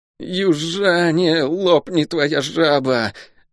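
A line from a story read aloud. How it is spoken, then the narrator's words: Shivering, through gritted teeth. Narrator (Russian): Дрожа от холода, процедил Лук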